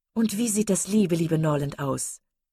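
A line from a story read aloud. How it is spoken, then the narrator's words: Calling out. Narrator (German): rief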